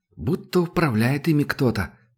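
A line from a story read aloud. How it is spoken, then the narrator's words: Muttered. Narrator (Russian): пробормотал Зуб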